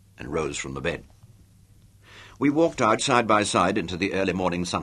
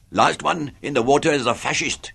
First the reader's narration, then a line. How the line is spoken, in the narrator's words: he shouted